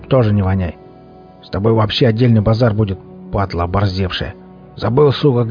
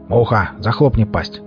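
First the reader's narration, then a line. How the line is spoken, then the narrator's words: Hoarse, gang boss. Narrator (Russian): захрипел бугор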